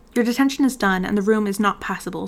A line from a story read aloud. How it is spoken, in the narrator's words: said Snape coldly